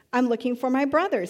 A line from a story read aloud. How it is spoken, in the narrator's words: he answered